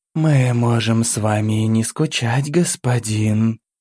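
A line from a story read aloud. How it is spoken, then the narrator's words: Velvety female voice. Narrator (Russian): бархатным голосом сходу же ответила бесовка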